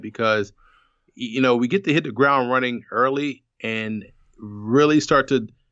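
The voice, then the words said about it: Excited, energetic voice. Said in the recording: “you could tell in my voice I'm amped about it”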